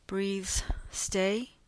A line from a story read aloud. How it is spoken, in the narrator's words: in a tired, hopeful voice